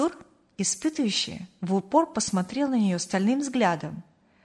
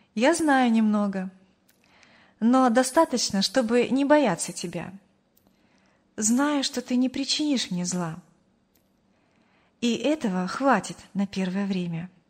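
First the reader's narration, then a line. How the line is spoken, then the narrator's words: Calm, young woman. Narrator (Russian): спокойно ответила девушка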